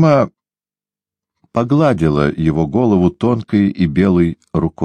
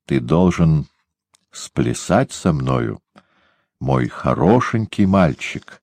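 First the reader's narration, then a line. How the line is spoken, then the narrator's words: Soft whisper. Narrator (Russian): тихо прошептала она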